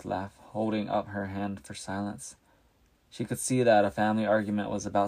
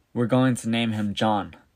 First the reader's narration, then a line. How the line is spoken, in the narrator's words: she said very firmly